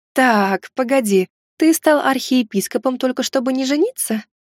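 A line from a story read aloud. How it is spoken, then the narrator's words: Overly sweet mother's question. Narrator (Russian): Каким-то уж слишком ласковым тоном спросила меня мама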